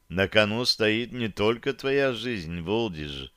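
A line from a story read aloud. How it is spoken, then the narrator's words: Quiet speech. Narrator (Russian): негромко сказала Таша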